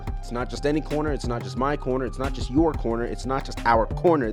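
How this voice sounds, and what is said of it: Very fast rattled-off delivery. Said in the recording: “say that so fast”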